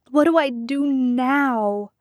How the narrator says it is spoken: He moaned out loud

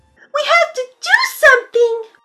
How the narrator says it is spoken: shouted Canary Yellow to her friends

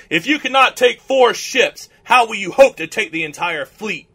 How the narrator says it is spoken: Mehmet bellowed at him

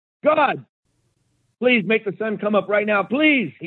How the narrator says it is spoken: shouted as he heard the roar of the beast closing in

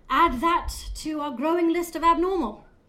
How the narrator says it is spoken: Spire stated through clenched teeth

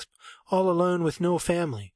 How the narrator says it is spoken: sob, gasp, sob

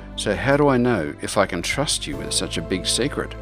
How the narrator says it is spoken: Glyndrell replied haughtily

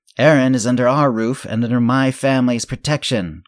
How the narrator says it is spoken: Carden yelled

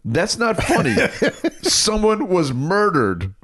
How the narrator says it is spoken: he sees us laughing and says

